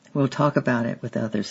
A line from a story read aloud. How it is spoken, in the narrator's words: he said